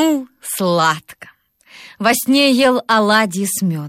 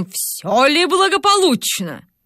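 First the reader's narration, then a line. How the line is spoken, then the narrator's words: Stern question. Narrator (Russian): спросил строгим голосом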